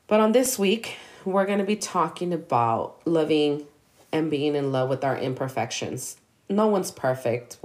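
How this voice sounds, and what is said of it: Sick, hoarse voice from flu. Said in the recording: “Excuse my voice, I am still sick and fighting through this cough, through this flu. ... you're going to hear me a little different.”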